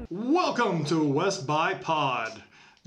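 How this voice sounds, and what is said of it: Put-on radio announcer voice. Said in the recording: “This is my radio voice.”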